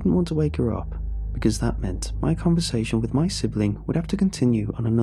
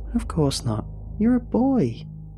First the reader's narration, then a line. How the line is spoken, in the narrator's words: I exclaimed